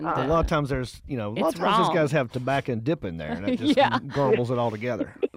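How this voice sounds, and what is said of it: Sweet Southern North Carolina accent. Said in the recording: “you're from North Carolina. They have such a sweet accent. ... Well, I do. ... They have the typical Southern accent, the y'all”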